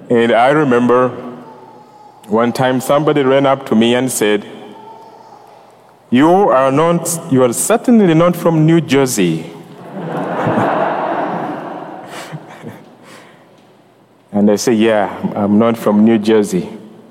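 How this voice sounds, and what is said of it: Ugandan accent. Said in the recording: “fascinated by my accent ... where is that accent from? ... I'm from Uganda”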